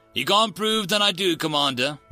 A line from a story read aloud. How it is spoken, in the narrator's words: Ranger Frank said cheerfully